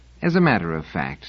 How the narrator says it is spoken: said Selden soothingly

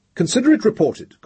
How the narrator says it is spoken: said irritably

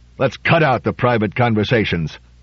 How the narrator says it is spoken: Trumbull growled

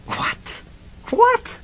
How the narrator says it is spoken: Hennessy cried, sputtering

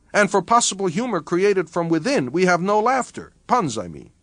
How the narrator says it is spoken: Meyerhoff added excitedly

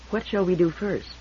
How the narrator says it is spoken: said softly

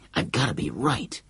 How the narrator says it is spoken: he muttered to himself

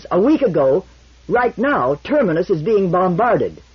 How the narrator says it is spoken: shouted back Mies

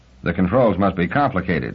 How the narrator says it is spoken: said Bailey dryly

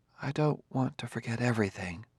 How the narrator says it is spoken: said Gladia softly

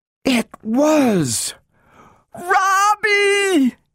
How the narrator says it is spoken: Her shriek pierced the air

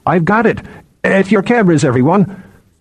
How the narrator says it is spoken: he heard Bine croak

